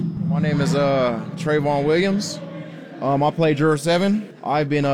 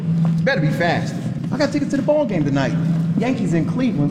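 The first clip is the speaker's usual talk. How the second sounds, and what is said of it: Put-on New York accent. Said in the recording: “the accent, is, you know, all the movies we watched, all the cartoons. Anything New York that I could reach for is kind of what I channeled”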